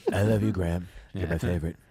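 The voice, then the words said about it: Creepy fan voice. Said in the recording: “doing an impression of a creepy fan”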